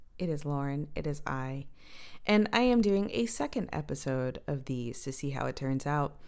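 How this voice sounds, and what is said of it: Tired, sleep-deprived voice. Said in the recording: “This is legit the voice that I woke up with today ... I got a crappy night's sleep last night ... this is my lack of sleep voice”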